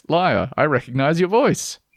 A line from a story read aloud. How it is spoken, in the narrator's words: Laughing, the friend says